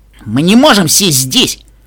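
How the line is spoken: Shout. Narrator (Russian): крикнул Каламити

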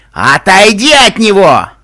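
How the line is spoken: Barked. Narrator (Russian): рявкнул в комнате доктор

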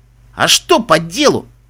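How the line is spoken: Snorted. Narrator (Russian): фыркнул Мбитса

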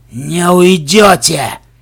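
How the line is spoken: King's growl. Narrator (Russian): прорычал король

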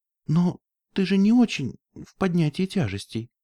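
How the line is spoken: Timid remark. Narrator (Russian): робко заметила Флаттершай

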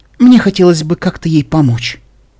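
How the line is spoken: Soft, gentle. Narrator (Russian): сказала она мягко

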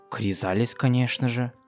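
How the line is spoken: Quiet reply. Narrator (Russian): тихонько ответила Флёр

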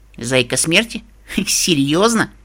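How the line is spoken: Snorting. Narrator (Russian): Ксенит фыркнула

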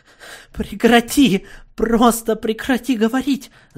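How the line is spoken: Shout. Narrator (Russian): закричала

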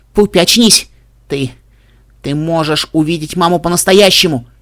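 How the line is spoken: Ringing birdlike shout. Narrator (Russian): кричала Генриетта звонким птичьим голосом

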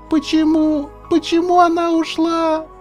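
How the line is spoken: Shouting. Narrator (Russian): кричала та

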